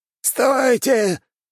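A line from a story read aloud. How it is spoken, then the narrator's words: Hoarse strained shout. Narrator (Russian): выкрикнул старший мастер, но его голос охрип от натуги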